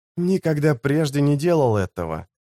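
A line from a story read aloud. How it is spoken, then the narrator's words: Whispered. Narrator (Russian): шепотом ответил Леорик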